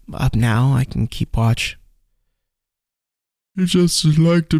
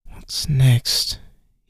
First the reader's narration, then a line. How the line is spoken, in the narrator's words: He muttered